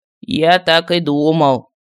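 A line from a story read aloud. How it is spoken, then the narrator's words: Displeased grumble. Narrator (Russian): недовольно проворчал Мар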